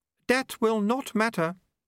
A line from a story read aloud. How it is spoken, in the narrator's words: said Unity calmly